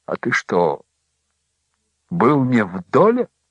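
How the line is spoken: Slow, frightened question. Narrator (Russian): Том испуганно закрыл рот, медленно спросил

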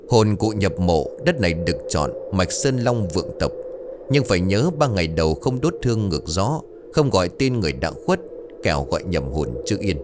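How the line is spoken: Muttering. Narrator (Vietnamese): Thầy Mão lẩm bẩm

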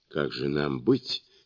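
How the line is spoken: Quiet question. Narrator (Russian): тихо спросил танский монах

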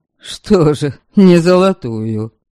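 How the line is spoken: Scoffing snort. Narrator (Russian): снова хмыкнул Ваята

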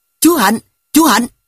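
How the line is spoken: Loud shouting, two voices. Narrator (Vietnamese): Tôi và anh Khánh miệng hét to

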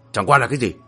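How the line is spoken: Shout. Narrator (Vietnamese): Hắc Lang Quân quát

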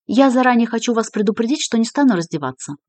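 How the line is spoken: Quick. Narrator (Russian): быстро сообщила Мильви

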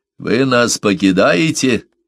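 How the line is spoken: Contemptuous. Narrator (Russian): сказал Мессон презрительным тоном

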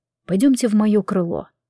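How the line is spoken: Quiet speech. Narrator (Russian): Генрих тихо сказал

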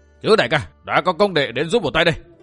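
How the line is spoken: Loud ringing yell. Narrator (Vietnamese): thét vang lực

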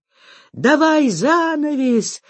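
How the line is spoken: Someone yelling. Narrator (Russian): вопит чей-то голос

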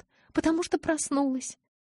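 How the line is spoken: Sobbing, choking on tears. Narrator (Russian): Прорыдала я, захлебываясь слезами

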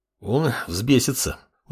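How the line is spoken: Sighing. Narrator (Russian): вздохнул предводитель проклятых

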